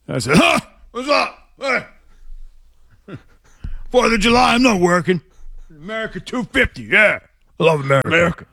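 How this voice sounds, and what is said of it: Imitates another person's voice. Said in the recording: “do their best Zoe impression ... It goes something like that.”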